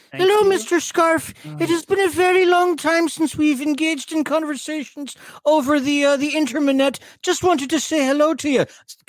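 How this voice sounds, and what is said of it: Put-on Scottish Irish accent. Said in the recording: “Hello Kitty got ... Scottish ... When did Hello Kitty get Scottish Irish?”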